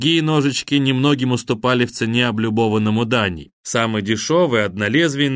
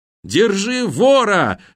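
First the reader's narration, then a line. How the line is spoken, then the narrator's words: Yelling. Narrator (Russian): завопил Данька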